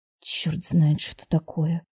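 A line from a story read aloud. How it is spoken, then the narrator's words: Muttering. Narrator (Russian): пробормотала Милана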